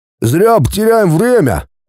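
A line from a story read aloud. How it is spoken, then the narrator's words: Grumbling. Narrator (Russian): проворчал дядя Хуберт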